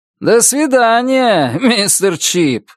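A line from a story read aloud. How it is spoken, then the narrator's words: Mocking drawl. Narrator (Russian): насмешливо протянул он, вдогонку выбежавшему на улицу Чипу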